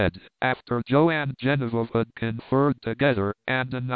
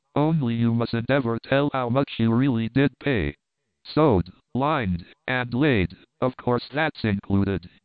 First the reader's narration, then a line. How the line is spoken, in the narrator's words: here his voice became impressively solemn